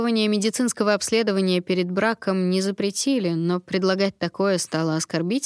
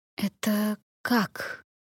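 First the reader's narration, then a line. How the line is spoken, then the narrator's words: Hoarse, strained. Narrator (Russian): хрипло выдавила я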